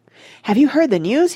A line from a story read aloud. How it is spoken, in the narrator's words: he cried